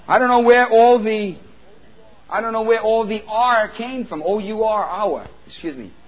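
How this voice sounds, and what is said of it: New York accent. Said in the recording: “That's my New York accent.”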